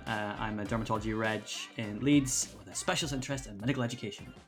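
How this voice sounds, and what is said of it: Soothing regional accent. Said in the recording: “what an accent. What an accent ... It's so soothing.”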